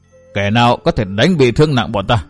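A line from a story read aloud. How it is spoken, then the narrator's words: Emphatic, full of hatred. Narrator (Vietnamese): Lão hơi nhấn mạnh với giọng đầy căm hận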